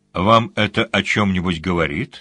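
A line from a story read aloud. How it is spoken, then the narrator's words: Plain. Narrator (Russian): спросил сварог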